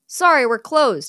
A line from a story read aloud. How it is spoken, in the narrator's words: Don yells toward the front of the store